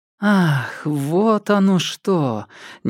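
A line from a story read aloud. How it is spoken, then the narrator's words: Involuntary exhale. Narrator (Russian): невольно выдохнула Люси Мяу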